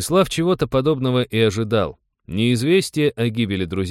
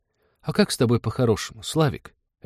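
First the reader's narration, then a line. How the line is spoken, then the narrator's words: Dismayed sigh. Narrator (Russian): огорченно вздохнул работорговец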